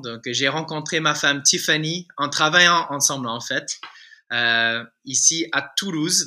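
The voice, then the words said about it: Slight American accent in French. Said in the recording (French): “si tu détectes un petit accent, euh, c'est en fait, euh, je suis un, un, Américain francisé”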